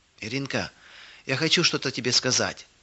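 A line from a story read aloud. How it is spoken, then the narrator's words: Whisper. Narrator (Russian): прошептала она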